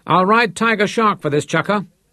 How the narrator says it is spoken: he shouted at Abel over his shoulder

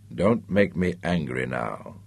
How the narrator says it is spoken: he warned her softly

